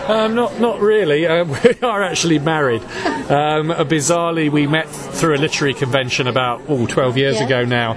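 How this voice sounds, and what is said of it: South London English accent. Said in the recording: “I can tell by your accent you're not from Brooklyn ... I'm from London, South London originally. We currently live in Lincolnshire in England, which is why we sound so completely different from all you lovely people over in this part of the world.”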